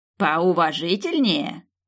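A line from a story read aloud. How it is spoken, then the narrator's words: Old man snorting. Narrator (Russian): дедок и фыркнул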